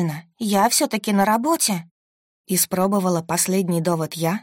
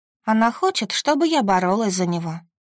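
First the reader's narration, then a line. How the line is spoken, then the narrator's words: Sighing. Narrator (Russian): вздохнула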